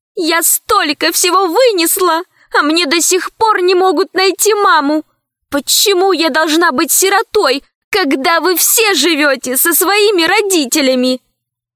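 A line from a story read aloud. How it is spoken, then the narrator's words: Desperate shriek. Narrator (Russian): И тут Лара отчаянно завизжала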